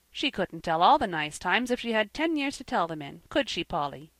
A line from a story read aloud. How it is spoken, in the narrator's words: said Jasper